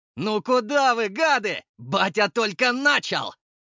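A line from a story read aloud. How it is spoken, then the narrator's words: Shouted after them. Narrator (Russian): Прокричал я им вслед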